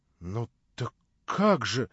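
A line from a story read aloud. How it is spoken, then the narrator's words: Naive tone. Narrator (Russian): наивно произнес Алеша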